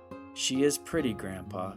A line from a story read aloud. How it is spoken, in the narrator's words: he said quietly